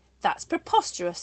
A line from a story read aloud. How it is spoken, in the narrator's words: exclaimed Igor, expelling saliva as he spoke